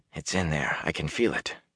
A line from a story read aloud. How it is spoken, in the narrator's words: Matt kept muttering to himself